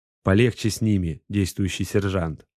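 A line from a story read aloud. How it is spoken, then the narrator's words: Plain. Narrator (Russian): сказал Варенц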